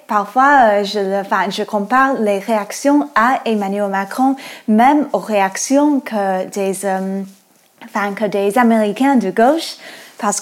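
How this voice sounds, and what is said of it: American accent speaking French. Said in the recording (French): “moi je suis américaine. Euh, on entend peut-être avec mon accent”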